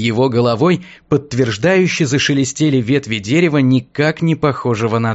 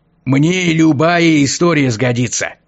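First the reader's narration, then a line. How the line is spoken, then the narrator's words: Cheerful old man. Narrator (Russian): Радостно улыбнулся дедок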